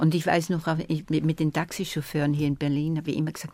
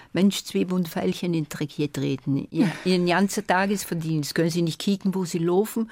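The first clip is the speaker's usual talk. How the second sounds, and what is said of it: Put-on Berlin dialect. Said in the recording (German): “bitte reden Sie mit mir recht berlinerisch ... im Berliner Dialekt”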